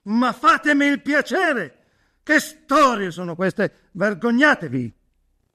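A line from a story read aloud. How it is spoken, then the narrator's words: Shouted. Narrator (Italian): uno scatto violentissimo ... gridandogli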